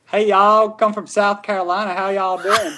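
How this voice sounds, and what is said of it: Put-on Southern American accent. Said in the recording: “can you do an American accent? ... like Southern or just American? ... I'm hanging around the Southern, so I'll try that ... That was so awesome.”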